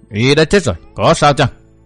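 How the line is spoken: Cold. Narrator (Vietnamese): Vô Hồi cốc chủ lạnh lùng nói

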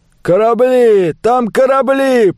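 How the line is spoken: Distant shout. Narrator (Russian): прокричали со стороны леска

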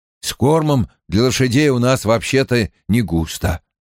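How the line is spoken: Plain. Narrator (Russian): ответил ей Перин

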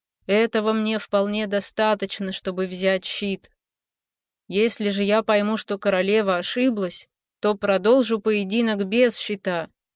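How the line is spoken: Indifferent. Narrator (Russian): говорил Хай безразличным голосом

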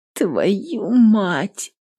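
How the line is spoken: Groaned. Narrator (Russian): Простонала она

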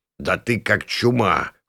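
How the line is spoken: Old man snorting. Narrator (Russian): фыркнул старик

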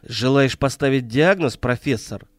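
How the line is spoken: Angry retort. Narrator (Russian): сердито бросил Владислав

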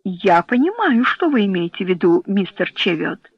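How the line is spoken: Plain. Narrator (Russian): сказал полковник Роуэн

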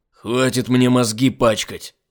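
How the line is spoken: Barking shout. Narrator (Russian): рявкнул Айзек

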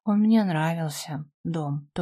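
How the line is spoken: Contented sigh. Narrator (Russian): вздохнула с наслаждением

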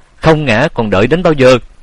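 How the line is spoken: Shouting. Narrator (Vietnamese): Tiếng hét

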